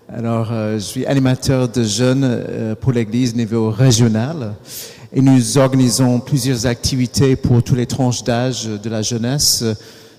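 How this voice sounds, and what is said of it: American accent speaking French. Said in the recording (French): “je suis d'origine américaine, dont l'accent.”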